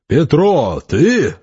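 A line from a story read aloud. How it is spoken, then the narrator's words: Yelling in resonant baritone. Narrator (Russian): заорал Степа неожиданно звучным баритоном, совсем не похожим на голос, с которым он общался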